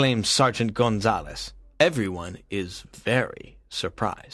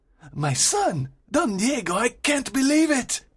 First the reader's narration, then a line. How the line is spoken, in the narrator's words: exclaims Don Alejandro